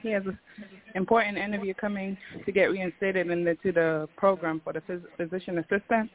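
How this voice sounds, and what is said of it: Breathless, out of breath. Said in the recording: “Sorry, I'm on my bike. Out of breath.”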